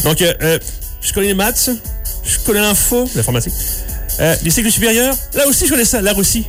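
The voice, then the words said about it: Puts on a slight accent. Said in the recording (French): “Je vais d'abord prendre un petit accent”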